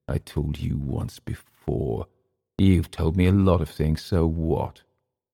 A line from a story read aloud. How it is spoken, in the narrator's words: Through clenched teeth, Emil said